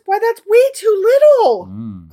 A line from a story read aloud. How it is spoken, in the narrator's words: cried the cantor